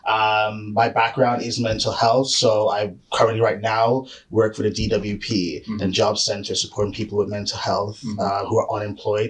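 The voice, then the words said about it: Hybrid Canadian-British accent. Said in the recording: “originally from Canada. So that's why my accent sounds very, very offish... I'm sort of like a hybrid of all the accents”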